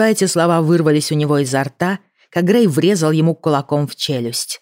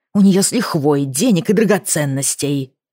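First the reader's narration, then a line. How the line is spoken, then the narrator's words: Hissed. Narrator (Russian): прошипел Кирби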